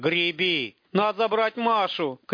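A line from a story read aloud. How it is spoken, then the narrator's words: Shout. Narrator (Russian): крикнул Растафарыч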